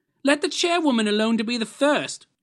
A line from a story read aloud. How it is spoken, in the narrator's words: cried she who had entered first